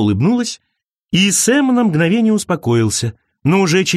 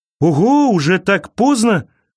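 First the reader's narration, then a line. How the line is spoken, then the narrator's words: Exclaimed. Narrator (Russian): воскликнул он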